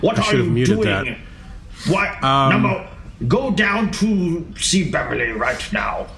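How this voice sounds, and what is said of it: Poor imitation of a character's voice. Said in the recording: “my terrible Picard impersonation”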